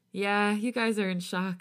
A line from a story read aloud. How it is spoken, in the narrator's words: he giggles, wiping his nose again